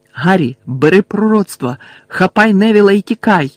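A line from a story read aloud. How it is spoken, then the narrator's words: Shouting. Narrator (Ukrainian): крикнув Сіріус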